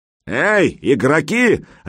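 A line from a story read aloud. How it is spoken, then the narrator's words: Barked. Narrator (Russian): рявкнул он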